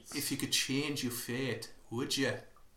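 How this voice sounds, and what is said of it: Put-on Scottish accent. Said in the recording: “that flawless Scottish accent that I'm doing ... it's as good as the one in the film”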